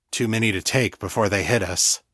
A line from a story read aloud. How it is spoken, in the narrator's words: murmured